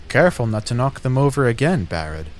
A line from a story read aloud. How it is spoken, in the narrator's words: laughed a woman